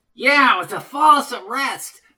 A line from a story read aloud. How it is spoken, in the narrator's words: shouted Eddie